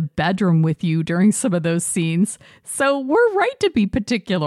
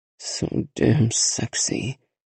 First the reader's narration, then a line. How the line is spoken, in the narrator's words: growls